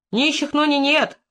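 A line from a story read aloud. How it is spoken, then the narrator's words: Female voice shouting. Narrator (Russian): выкрикнул женский голос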